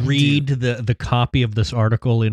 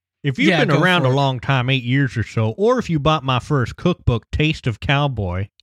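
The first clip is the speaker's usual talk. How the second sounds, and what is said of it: Put-on hillbilly voice. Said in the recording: “in my hillbilly voice”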